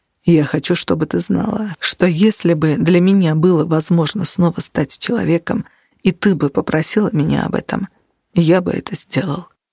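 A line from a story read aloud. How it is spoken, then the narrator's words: Whisper. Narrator (Russian): прошептал Нигер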